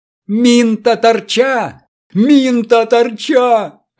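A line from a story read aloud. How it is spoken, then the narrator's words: Desperate shout. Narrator (Russian): отчаянно закричал Врио за Врио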